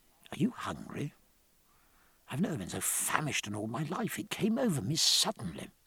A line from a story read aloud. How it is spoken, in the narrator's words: he said in an undertone